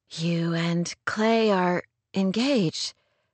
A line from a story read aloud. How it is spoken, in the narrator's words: Rory murmured as shockwaves coursed through her blood